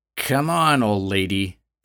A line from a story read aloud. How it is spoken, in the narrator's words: the woman growled